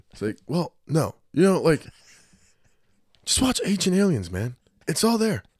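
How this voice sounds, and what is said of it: Imitates another person's voice. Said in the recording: “Max requested an Evan impression”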